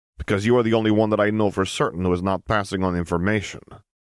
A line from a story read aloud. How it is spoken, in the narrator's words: Harry snorted